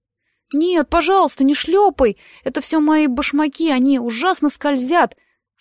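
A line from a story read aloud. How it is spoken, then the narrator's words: Holding back sobs, plaintive. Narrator (Russian): сказал Роб, мужественно подавив рыдание, и прибавил так жалобно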